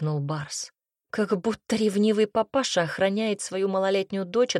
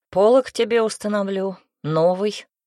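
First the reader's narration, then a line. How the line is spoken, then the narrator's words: Growled. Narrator (Russian): рыкнул Альфа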